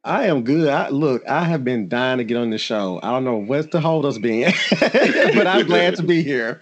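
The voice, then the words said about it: Soothing Southern US accent. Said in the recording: “I love to hear that Southern accent from you. It is so like... soothing.”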